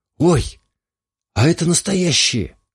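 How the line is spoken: Surprised exclamation. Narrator (Russian): воскликнула та, увидев на заднем сиденье шашки в ножнах

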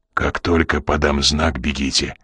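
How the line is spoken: Whisper. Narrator (Russian): прошептал Коридон

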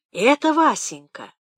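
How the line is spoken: Guilty whispered reply. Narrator (Russian): шепотом отозвалась Паша, сморщив лицо виноватой улыбки

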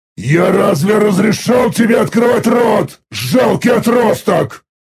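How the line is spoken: Thunderous roar in mind. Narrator (Russian): Прогремел настоящий рев в его сознании

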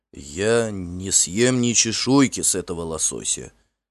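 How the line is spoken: Trembling but resolute. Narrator (Russian): дрожащим, но решительным голосом изрек Барт

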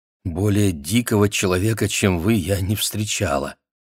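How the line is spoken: Plain. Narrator (Russian): сказала она

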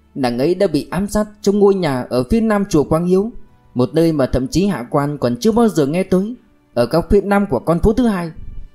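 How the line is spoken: Shout. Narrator (Vietnamese): Thứ sử thét lên

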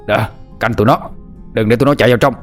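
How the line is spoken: Yelling. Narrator (Vietnamese): Tiếng của tên Lê Cao Hưng la hét

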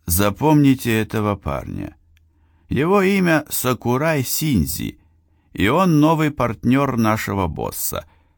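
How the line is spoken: Very friendly voice. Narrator (Russian): очень доброжелательным голосом проговорил

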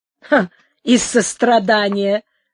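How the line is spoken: Sarcastic laugh. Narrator (Russian): засмеялась Сара Кондора язвительно

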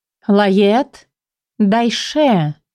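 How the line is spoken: Drawn-out voice. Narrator (Russian): протянула она

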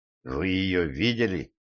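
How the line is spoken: Hoarse. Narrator (Russian): произнес хрипло

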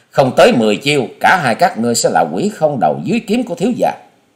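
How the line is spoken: Loud laughing boast. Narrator (Vietnamese): Hòa Sĩ Kiệt cười lớn

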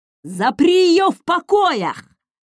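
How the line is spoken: Shouting. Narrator (Russian): закричал Марсель

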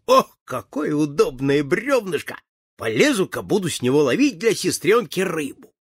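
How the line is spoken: Laughing. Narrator (Russian): И засмеялся и сказал

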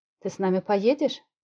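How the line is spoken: Plain. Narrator (Russian): спросила Ветрова

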